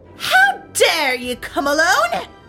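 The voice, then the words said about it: Terrible, menacing witch voice. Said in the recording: “said the witch in a terrible voice”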